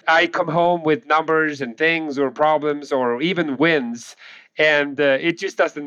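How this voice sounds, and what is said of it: Swedish accent in English. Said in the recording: “people can probably already tell I have an accent. So I'm from Sweden, born and raised in Sweden”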